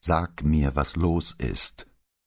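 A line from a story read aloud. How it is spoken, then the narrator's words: Deliberately calm repetition. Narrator (German): wiederholte bewusst ruhig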